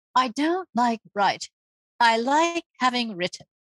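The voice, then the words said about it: Put-on accent while quoting. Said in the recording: “I use an accent when I quote her”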